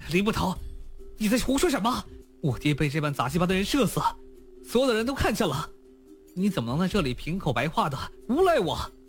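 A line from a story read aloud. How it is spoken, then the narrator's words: Furious with hint of panic. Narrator (Chinese): 娄天凡本是怒极的一张面孔，竟然有了一丝惊慌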